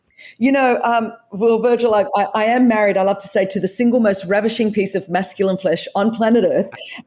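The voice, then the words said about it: Australian accent. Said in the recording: “As you could tell from the accent, I was raised in Australia.”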